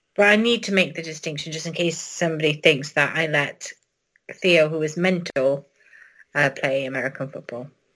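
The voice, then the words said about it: Noticeable accent. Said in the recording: “You got enough of an accent where people aren't going to mistake it.”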